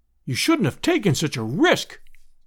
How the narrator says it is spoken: we all cried

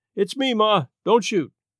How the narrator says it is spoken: he yelled

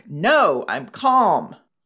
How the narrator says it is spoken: would get even more angry and yell back

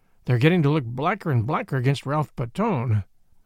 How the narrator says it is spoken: I observed gloomily

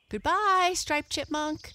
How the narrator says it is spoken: they shouted

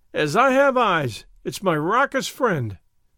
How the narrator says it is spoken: he cried

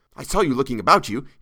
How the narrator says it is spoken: he said, sputtering out his words in his intense eagerness

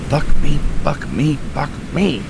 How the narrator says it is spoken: I muttered

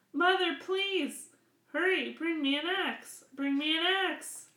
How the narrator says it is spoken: Jack called out

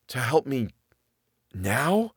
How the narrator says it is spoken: he whispered

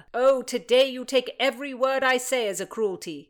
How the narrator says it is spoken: he shouted back

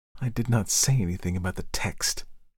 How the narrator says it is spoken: Overwhelmed with confusion, she muttered

